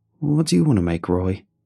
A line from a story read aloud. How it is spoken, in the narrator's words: I asked